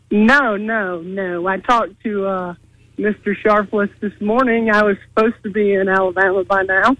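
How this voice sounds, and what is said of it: Southern American accent. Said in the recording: “your sweet, sweet, tangy Southern accent”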